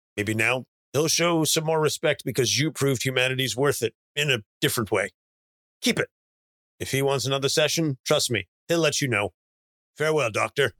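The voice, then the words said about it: Generic older man character voice. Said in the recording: “I opted not to try to go for a Brosnan accent there ... I just opted to go for generic older man.”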